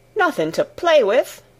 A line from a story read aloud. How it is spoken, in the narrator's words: exclaimed Martha